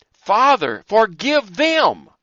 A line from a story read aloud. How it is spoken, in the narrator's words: he had cried